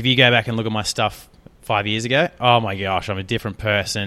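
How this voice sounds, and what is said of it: Australian accent. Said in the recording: “my accent, my Australian accent”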